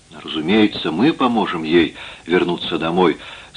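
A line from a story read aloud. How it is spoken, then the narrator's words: Calm. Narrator (Russian): спокойно сказал Телентайр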